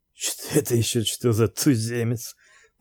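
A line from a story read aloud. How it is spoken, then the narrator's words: Wheezy baritone, curious. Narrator (Russian): Похрипывающим баритоном полюбопытствовал Тугарин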